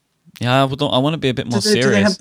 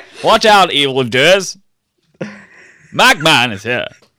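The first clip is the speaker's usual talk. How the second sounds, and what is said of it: Old-fashioned British radio announcer voice. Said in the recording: “your 1930s British radio voice”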